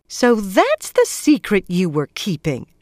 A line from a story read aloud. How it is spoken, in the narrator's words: exclaimed